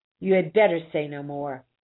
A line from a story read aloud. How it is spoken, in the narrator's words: she said sharply